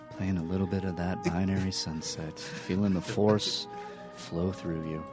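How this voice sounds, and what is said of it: Smooth public-radio announcer voice. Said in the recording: “I'm putting on my NPR voice.”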